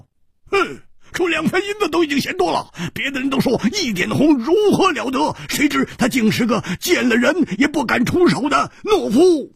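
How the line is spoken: Sneering. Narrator (Chinese): 锦衣大汉冷笑着说

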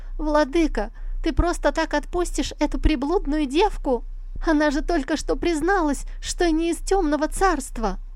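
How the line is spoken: Fearful shouting. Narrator (Russian): Ци Сюэр, со страхом наблюдавшая за происходящим, закричала

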